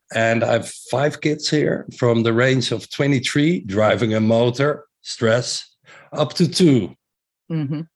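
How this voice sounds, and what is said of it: Strong Dutch accent. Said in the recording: “as you may have heard my accent, very Dutch accent.”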